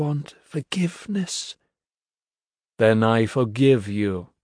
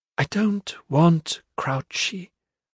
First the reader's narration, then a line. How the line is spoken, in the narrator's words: she murmured, her voice washed of all colour